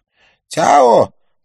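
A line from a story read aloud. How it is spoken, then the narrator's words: Shout. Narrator (Russian): прокричал Лин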